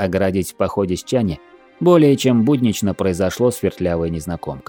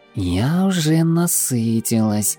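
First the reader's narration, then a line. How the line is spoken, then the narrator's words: Purring. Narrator (Russian): мурлыкнула Немира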